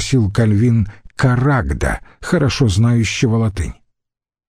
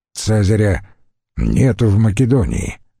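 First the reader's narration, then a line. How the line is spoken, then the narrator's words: Answered gloomily. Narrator (Russian): мрачно ответил Карагд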